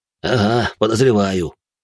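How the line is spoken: Wry snort. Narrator (Russian): хмыкнул он

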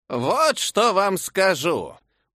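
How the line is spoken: Creaky hoarse voice. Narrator (Russian): проскрипела я как бы охрипшим голосом

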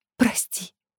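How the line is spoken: Trembling whisper. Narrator (Russian): прошептала она дрожащими губами

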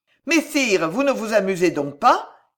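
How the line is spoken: Shouting. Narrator (French): criait le duc d'Anjou

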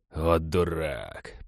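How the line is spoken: Muttering. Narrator (Russian): пробормотал череп

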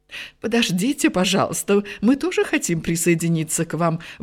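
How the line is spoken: Exclamation. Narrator (Russian): воскликнула фру Стенерсен

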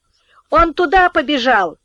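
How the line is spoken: Boy shouting. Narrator (Russian): крикнул один из мальчиков

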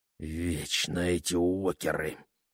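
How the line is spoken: Muttered. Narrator (Russian): пробормотал

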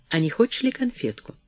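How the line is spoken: Quiet diplomatic offer. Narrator (Russian): Перри тихо, дипломатическим тоном, не предложил вдруг из угла

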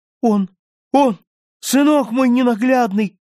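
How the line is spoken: Crying out. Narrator (Russian): вскрикнула

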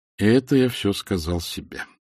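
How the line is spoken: Sighed. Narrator (Russian): вздохнул Люса

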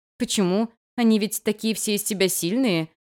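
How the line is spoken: Ironic snort. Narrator (Russian): иронично хмыкнула я

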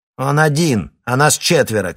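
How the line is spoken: Female shout. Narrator (Russian): крикнула секретарша Кривоносова

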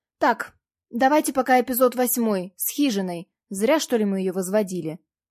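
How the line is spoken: Shout. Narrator (Russian): выкрикнул он

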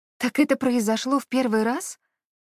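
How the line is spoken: Surprised breathy. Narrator (Russian): С удивлением выдохнула она

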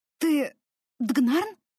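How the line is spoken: Hoarse question. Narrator (Russian): хрипло спросила я

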